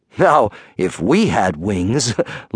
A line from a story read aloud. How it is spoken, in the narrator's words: laughed Icarus